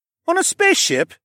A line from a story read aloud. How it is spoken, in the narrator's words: Mikey blurted out